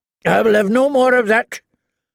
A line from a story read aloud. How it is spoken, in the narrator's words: Lord Randall told his wife harshly